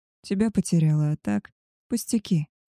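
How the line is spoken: Soft reply. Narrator (Russian): Мягко отвечает

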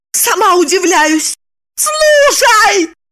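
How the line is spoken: Shout of sudden terrible realization. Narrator (Russian): закричала она, осененная страшной догадкой

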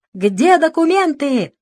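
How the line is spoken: Young man yelling, exasperated. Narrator (Russian): заорал молодой, не выдержав этой спокойной беседы

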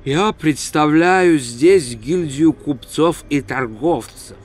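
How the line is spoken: Calm reply. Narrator (Russian): спокойно ответил Реп

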